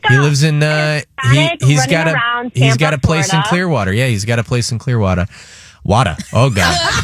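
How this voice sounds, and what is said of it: Slight put-on Boston accent. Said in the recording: “I'm getting a little Boston accent.”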